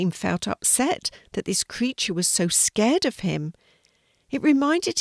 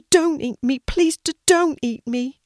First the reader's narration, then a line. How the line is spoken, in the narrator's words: the sea turtle covered his head again with his flippers and whimpered